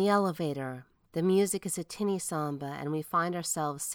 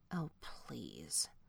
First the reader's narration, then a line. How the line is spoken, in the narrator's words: from behind us, Sarah Girl mutters